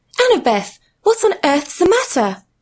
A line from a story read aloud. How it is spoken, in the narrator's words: exclaimed her mum